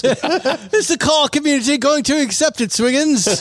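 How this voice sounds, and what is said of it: Mock British accent. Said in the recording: “the British guy came over ... I can't deal with you, English people. ... Just get to do the accent.”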